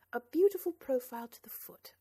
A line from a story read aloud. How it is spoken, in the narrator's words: laughed Ellen